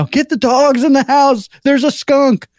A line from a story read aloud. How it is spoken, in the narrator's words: yell